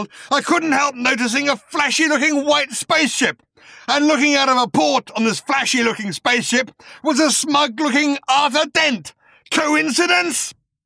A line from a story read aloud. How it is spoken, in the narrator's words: he snarled